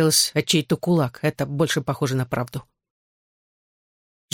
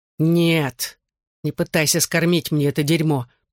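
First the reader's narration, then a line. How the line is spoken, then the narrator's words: Furious hiss. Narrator (Russian): прошипел я, взбешенный его ответом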